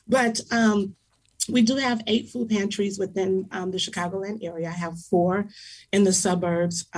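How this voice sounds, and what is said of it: Hoarse voice. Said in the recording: “Excuse my voice. I'm a little hoarse. ... Kind of hoarse”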